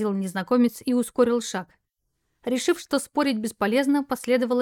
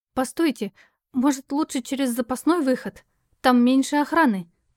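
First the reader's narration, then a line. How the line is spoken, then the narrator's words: Hesitant suggestion. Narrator (Russian): предложила я неуверенно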